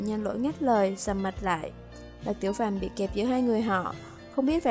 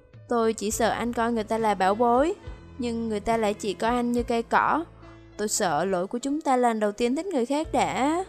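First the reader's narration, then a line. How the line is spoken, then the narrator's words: Mocking smile. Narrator (Vietnamese): Lâm Nam Vũ khóe miệng mỉm cười chế giễu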